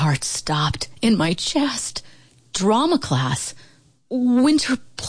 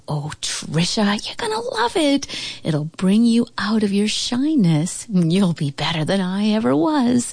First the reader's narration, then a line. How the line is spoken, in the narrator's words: she cooed